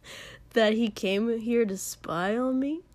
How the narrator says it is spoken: Katsuki said with a cold chuckle

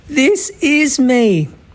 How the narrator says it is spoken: Mei exclaimed

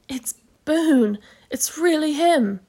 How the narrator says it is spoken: breathed Patrick

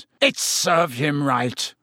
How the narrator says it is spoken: he sneered

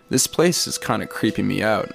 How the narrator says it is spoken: I said

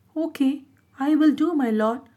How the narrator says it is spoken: the red monkey would say in a sad, submissive tone

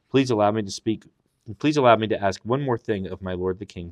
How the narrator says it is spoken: said

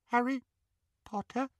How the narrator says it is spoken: he squeaked in the tiniest quiver of a voice

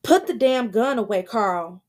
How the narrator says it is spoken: she yells

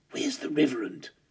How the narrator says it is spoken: Wimpy Bar sat next to me on the sofa and hissed

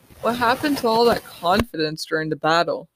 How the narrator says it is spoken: I laugh

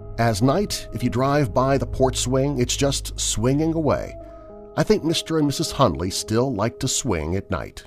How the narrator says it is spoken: she said

